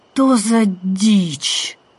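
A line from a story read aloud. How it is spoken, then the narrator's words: Groaning. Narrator (Russian): простонала Сашка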